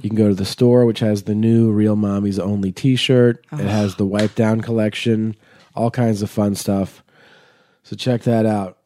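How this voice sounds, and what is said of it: Voice still sounding unwell. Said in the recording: “As you can tell by my voice, I'm not fully recovered yet.”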